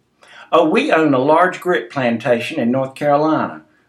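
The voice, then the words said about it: Thick Southern US accent. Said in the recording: “I said in my thickest Southern accent.”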